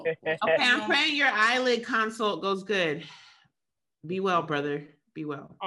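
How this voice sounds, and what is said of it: Breathless, out-of-breath speech. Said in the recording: “a nice little out of breath sentence ... No lung capacity. ... I can't breathe.”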